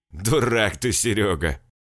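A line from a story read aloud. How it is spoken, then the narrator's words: Loud laughing. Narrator (Russian): расхохотался Толян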